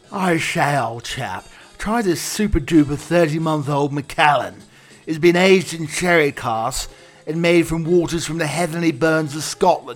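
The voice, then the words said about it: Posh put-on English accent. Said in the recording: “show somebody with an English accent ... as smoky and as silky smooth as my dulcet tones, my delicious accent”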